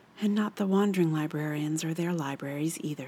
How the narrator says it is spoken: said Johanna Juditha softly

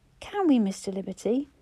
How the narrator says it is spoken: He looked up eagerly

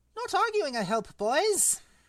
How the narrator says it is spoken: he squeaked

